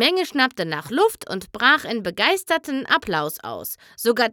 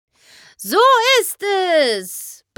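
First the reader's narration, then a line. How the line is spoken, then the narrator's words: Roaring shout. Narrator (German): brüllte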